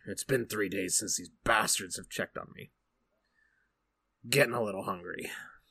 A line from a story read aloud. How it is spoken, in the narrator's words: he just mutters to himself